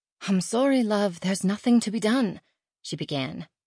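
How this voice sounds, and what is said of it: English accent. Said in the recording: “Sally had an adorable accent, like Anna from Downton Abbey”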